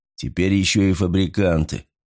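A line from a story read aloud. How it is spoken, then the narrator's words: Grumbling. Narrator (Russian): заворчал Ули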